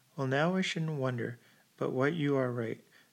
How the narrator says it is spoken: exclaimed Mr

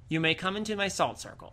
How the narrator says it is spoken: she said

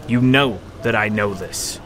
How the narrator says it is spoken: Miles said sternly, unhappy that Janner knew as much as he did

